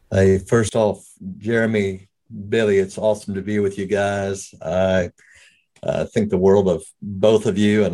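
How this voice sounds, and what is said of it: Slight South African accent. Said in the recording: “if you pick up a little brogue, it kind of comes and goes, but I was raised in South Africa”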